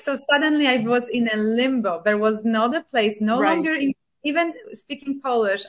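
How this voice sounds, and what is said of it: Polish accent in English. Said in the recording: “I was speaking English with Polish accent. And it remains the same today. ... Now you can hear my accent”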